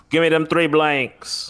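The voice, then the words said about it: Puts on an unidentified accent. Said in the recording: “I don't know what accent that was, but I dig it.”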